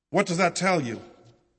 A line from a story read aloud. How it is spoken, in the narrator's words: Holmes asked